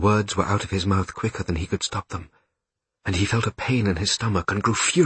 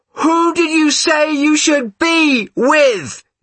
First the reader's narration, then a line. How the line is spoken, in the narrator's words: she shouted